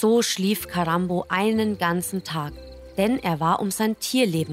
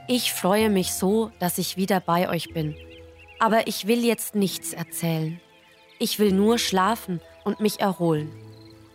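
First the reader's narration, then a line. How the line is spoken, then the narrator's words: Exhausted, weary speech. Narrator (German): Karambo, dem die Knie fast den Dienst versagten, winkte müde ab und sagte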